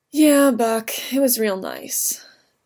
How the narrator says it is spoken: Steve said, but it came out a sigh

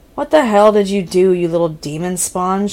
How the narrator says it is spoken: growled

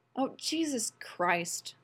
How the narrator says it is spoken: Rodney said, wearily

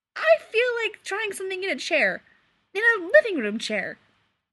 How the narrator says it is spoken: Clark said brightly

